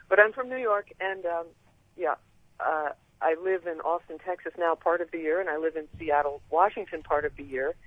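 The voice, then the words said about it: Sing-song, lilting, Canadian-sounding accent. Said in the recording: “That's funny that I sound Canadian ... you've picked up a bit of a sing-song, a lilt to your accent”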